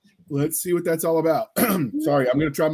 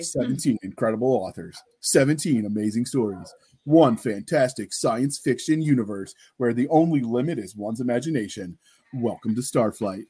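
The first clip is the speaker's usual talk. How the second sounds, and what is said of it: Movie trailer announcer voice. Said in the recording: “try my movie trailer voice”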